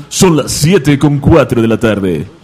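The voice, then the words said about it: Radio announcer voice. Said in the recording (Spanish): “hazlo con voz de locutor”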